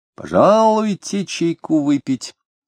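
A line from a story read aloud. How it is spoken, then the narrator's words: Sonorous voice. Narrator (Russian): предложил он звучным голосом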